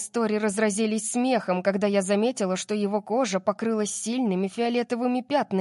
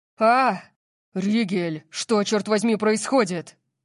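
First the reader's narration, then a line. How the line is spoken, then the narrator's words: Roaring. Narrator (Russian): Взревел Орион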